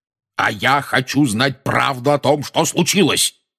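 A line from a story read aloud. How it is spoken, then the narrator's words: Roared. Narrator (Russian): проревел дядя Вернон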